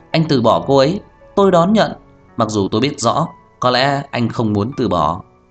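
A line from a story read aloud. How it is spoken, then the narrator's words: Cheerful, beaming. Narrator (Vietnamese): Trang Hạo Nhiên cười hớn hở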